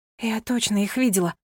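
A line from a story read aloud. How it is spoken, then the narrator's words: Whispered to herself. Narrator (Russian): прошептала она сама себе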